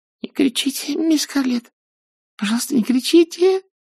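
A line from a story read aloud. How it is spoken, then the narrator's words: Breaking whisper. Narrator (Russian): зашептала она срывающимся голосом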